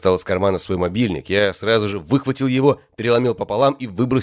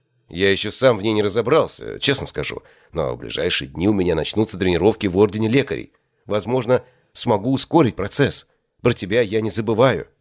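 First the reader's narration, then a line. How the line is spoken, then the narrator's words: Plain. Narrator (Russian): ответил я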